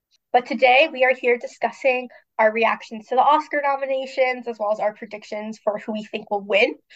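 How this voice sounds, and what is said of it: Congested voice. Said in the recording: “I sound a little congested ... I'm just getting over a cold”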